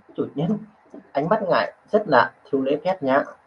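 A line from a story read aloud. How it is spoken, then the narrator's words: Soft, displeased. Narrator (Vietnamese): nhíu mày khẽ cắt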